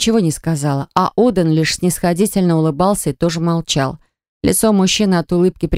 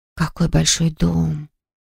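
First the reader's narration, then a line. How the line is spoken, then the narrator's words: Admiring whisper. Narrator (Russian): прошептала восхищенно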